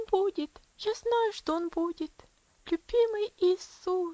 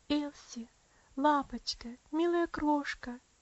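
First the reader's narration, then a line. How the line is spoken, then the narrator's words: Soft, trembling, tender. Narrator (Russian): тихо, дрожащим голосом проговорила она, с нежностью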